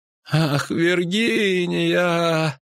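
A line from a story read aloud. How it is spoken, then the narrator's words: Moaning. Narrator (Russian): застонал Лютик, не открывая глаз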